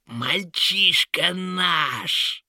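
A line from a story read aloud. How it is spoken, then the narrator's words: Shrill shriek. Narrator (Russian): Завизжала нечисть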